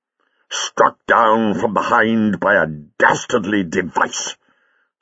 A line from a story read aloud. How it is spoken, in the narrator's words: said Jago fiercely